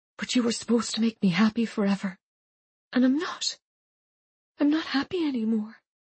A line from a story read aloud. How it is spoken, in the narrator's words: Sarah whispered